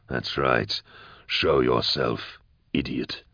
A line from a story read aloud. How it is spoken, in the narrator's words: he murmured